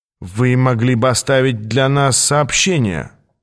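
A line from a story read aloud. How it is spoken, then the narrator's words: Grumbling mutter. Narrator (Russian): пробурчал он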